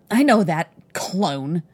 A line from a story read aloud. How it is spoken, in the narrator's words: he snarled